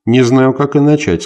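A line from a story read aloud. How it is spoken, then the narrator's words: Plain. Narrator (Russian): сказал он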